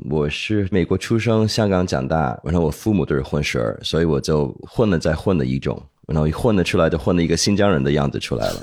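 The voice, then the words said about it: Slight Hong Kong and ABC accent. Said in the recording (Chinese): “你听我的口音，你很难听出来是哪里人呢？可能听到一点点港普，也听到一种 A B C 那种口音。”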